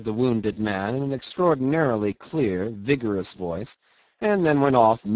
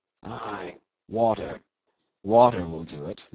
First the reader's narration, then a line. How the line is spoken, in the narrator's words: muttered the other to himself resignedly